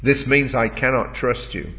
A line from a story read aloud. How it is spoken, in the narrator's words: said